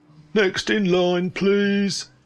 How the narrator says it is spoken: dullard churro salesman moaned

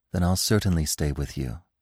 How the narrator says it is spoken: said Feline gently

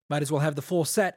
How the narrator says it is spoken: Adolin said

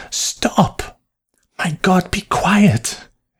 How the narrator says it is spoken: hissed Mary Sippick

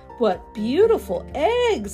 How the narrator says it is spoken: exclaims Grandma

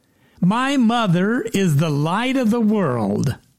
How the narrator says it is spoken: The little girl suddenly relaxed, smiled, and loudly proclaimed

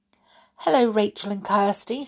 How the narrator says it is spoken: said the fairy

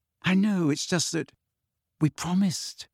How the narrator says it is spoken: said Hermione in a small voice

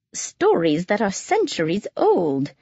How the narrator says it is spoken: she exclaimed

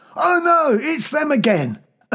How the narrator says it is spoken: someone yelled

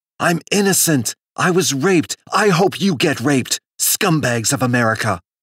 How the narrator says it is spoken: she exploded with rage, shouting

